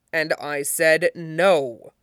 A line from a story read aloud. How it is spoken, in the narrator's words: Fenris said, as firmly as he could